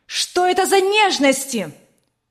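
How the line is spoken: Angry shout. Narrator (Russian): Сверкая от гнева глазами, закричала она

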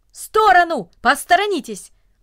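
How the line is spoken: Brisk businesslike shout. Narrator (Russian): Деловито, как будто у него было какое-то срочное дело, он даже закричал

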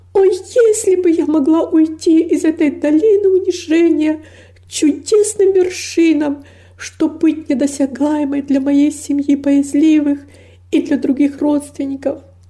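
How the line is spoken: Exclaiming with deep longing. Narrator (Russian): воскликнула с невыразимой тоской

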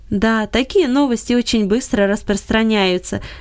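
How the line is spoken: Laughing. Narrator (Russian): засмеялся Гельберт Леньерд

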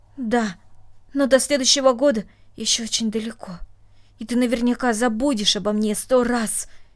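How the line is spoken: Angry, reproachful. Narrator (Russian): сердито сказала она, как будто упрекая своего друга

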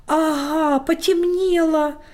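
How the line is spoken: Exclaimed. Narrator (Russian): воскликнул Лёша

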